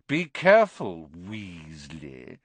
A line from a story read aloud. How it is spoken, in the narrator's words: sneered Malfoy